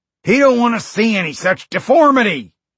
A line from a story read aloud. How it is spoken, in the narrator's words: Rocky shouted